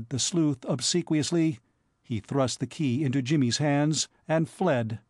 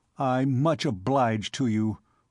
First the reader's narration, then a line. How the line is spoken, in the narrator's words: growled Mr